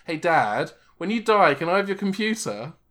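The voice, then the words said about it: American imitating a British child accent. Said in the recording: “you had a different accent for this. You use like the very like American child having to play a British child.”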